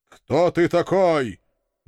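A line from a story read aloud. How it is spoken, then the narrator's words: Menacing question, bearded man. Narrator (Russian): грозным голосом спросил тот самый бородатый интеллигент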